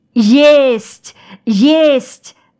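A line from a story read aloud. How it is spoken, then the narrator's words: Yelling. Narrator (Russian): заорал Аникей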